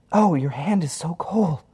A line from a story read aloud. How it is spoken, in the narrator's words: Harry's wife, Norma, whimpers